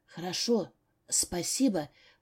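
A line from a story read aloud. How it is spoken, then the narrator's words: Whisper. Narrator (Russian): прошептала я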